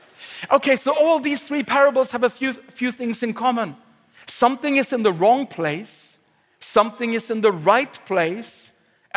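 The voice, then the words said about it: Non-native, Swedish-accented English. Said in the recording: “I'm speaking in my second language here... If you're annoyed by the dialect,... preach to me in Swedish”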